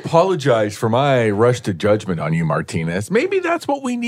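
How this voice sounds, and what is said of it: Usual voice. Nothing is said of it.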